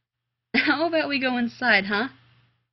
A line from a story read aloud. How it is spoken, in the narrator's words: He said, only laughing harder